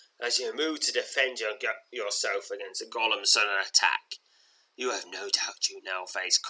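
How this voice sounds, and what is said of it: Usual voice. Nothing is said of it.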